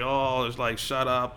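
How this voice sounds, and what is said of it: Good put-on Australian accent. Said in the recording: “Australian accent is actually pretty good”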